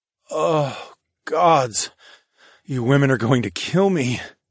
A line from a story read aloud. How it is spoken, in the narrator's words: I groaned